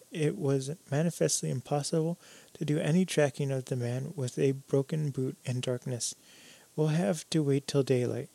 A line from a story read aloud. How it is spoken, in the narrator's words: Jimsy sighed